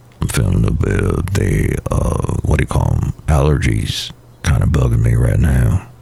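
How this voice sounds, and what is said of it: Voice deeper than usual. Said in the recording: “why your voice is a little bit deeper than usual”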